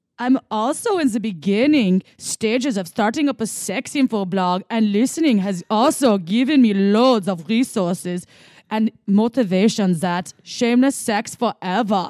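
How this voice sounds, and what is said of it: Put-on German accent. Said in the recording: “Okay, German, here we go... in German accent... I'm sorry my German wasn't as good in the beginning. I needed to warm that one up”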